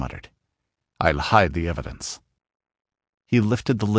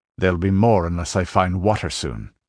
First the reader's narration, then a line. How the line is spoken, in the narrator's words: growled the Cimmerian, his short store of patience about exhausted